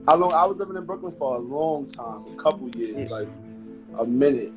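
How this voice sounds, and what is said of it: Brooklyn New York accent. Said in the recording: “I can tell. I hear it in your accent ... different boroughs got different accents”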